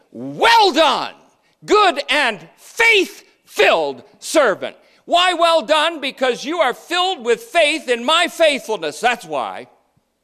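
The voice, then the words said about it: Loud, yelling preaching voice. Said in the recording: “sorry if I'm yelling. It doesn't mean I'm mad.”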